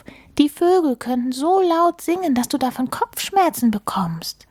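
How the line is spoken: Calling out. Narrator (German): rief Maulwurf

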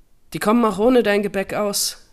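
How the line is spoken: Called after. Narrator (German): rief nach

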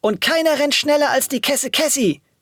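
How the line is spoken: Excited exclamation. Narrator (German): rief Alia aufgeregt

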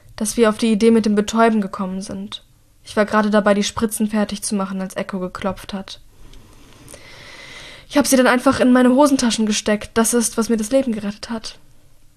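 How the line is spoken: Croaking. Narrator (German): krächzt Mira

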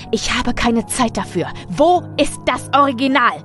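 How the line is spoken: Roared. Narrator (German): brüllte er

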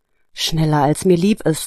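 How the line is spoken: Sighing. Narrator (German): antwortete Nina seufzend

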